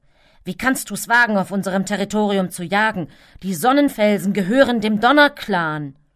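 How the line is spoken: Tabby cat growling. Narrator (German): knurrte der getigerte Kater

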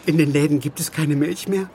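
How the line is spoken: Sobbing young woman. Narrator (German): antwortete die junge Frau schluchzend

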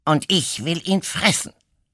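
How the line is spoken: Badger hissing. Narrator (German): zischte der Dachs

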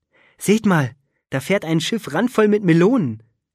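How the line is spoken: Calling out. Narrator (German): rief Finn

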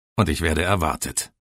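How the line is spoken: Calm reply. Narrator (German): antwortete ruhig

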